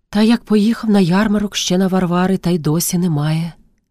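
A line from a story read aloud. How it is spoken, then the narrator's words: Sighing reply. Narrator (Ukrainian): зітхнувши, отказує Пріська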